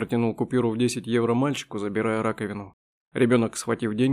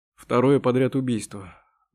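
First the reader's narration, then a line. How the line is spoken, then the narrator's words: Grim reminder. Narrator (Russian): мрачно напомнил Мигу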